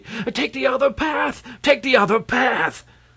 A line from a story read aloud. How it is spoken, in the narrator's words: this man shouting excitedly